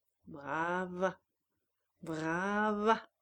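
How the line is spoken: Singsong voice rising above others. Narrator (French): d'une voix chantante qui dominait les autres

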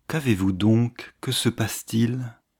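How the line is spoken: Lighter tone. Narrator (French): Hélène dit d'un ton plus léger

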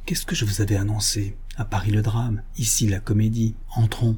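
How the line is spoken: Low voice. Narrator (French): Rénine dit tout bas

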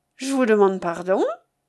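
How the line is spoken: Cheerful. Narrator (French): dit-il gaiement

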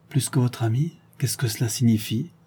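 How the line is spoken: Blushing murmur. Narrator (French): murmura-t-elle en rougissant

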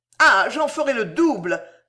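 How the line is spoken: Exclaiming. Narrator (French): s'exclama Marco

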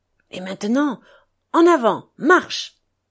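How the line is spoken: Joyful murmur. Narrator (French): murmura Dmitri, transporté de joie

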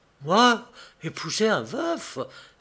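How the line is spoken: Exclaimed. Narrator (French): s'écria Lucille

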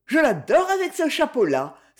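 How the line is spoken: Exclaimed. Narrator (French): s'exclama Claire

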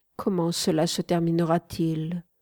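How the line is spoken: Sad question after pause. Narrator (French): demandai-je tristement après une petite pause

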